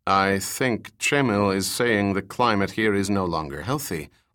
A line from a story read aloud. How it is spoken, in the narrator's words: Austin said